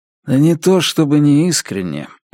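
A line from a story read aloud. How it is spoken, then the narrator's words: Sighing. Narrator (Russian): вздохнул Страйк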